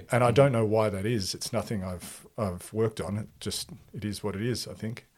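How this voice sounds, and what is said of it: Neutral Australian accent. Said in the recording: “I've been told I have quite a neutral Australian accent”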